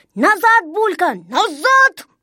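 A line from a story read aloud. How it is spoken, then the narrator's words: Shouting. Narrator (Russian): закричал Незнайка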